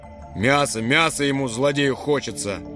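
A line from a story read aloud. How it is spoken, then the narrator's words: Booming drone. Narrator (Russian): прогудел Фромартин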